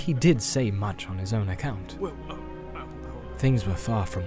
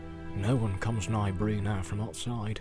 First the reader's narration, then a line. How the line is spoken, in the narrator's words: he said